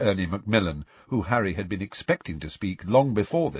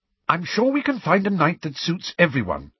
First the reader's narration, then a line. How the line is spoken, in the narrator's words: said Hermione slightly impatiently